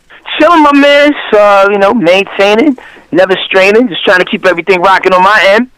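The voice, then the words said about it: New York Bronx accent. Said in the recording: “we can tell by the accent ... I'm originally from the Bronx, New York”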